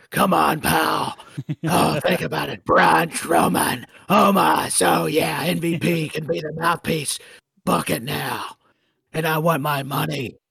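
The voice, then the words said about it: Gravelly, gargling imitation of another person. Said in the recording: “Now I'm getting into a Vince impersonation without trying to do it ... it hurts to try to do that. I'm having to gargle.”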